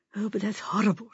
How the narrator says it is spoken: she murmured

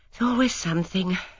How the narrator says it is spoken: murmured

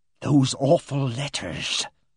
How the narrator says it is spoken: breathed Miss Ginch in a sibilant whisper

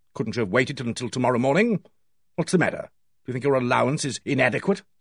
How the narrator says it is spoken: He said sharply

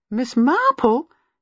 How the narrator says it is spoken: she exclaimed in lively surprise

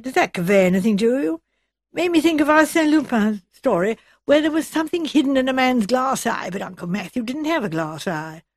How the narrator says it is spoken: Edward said eagerly

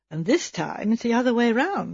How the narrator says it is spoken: asked Miss Marple dryly

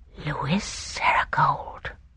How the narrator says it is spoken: he murmured incredulously

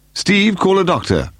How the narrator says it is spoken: Paul shouted

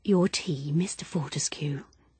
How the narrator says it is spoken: she murmured in a low, impersonal voice

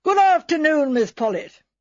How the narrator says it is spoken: Miss Hartnell, jolly, weather-beaten, 55, shouted out in her usual loud bass voice

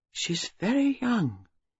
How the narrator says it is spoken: She said at last in a gentle voice

